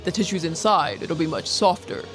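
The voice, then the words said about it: Imitates another person's voice. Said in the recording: “That's my Irvin Smith impression. ... Pretty good.”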